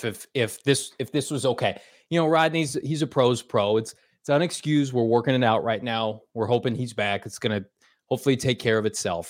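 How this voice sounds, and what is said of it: Impression of coach Cliff. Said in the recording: “I'm going to do an impression of Cliff”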